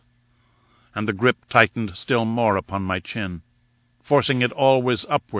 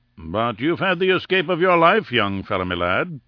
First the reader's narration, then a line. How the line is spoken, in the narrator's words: said Lord Roxton